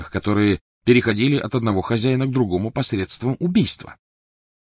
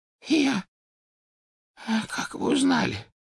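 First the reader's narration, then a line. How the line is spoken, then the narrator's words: Hoarse pleading. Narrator (Russian): прохрипел Оливандер, с мольбой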